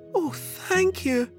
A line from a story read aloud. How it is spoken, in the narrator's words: cried Sophie